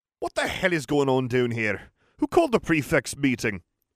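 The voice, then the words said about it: Poor attempt at Scottish accent. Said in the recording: “that's a terrible Scottish”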